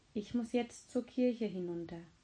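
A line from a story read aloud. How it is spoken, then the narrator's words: Gentle. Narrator (German): sagte sanft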